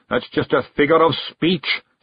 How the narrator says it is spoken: snapped Zack

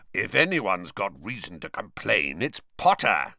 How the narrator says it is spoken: growled Moody

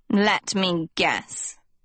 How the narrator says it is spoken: the tattooed girl snorted

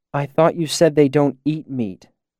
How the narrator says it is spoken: Denna said, looking around nervously

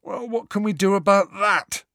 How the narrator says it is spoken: said Ron, yawning

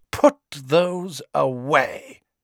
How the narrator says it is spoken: she said coldly

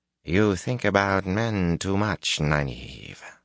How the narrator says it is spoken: Olivia drawled

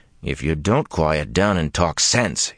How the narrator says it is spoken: he growled

